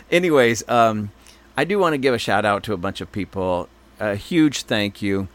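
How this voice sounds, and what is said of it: Polished radio announcer voice. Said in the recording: “I'm doing my best to have my good radio voice.”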